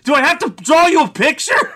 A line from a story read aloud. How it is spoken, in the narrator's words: she just yells